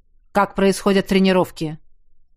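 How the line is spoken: Irritated question. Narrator (Russian): Все еще раздраженно спросил Кариан

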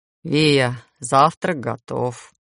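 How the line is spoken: Glum voice. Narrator (Russian): унылым голосом сообщила Таня

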